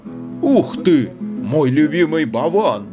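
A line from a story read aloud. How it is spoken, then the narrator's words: Exclaimed. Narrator (Russian): воскликнул Илья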